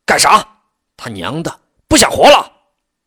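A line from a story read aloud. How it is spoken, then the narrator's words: Bandit soldier roaring. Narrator (Chinese): 保安队匪兵吼叫着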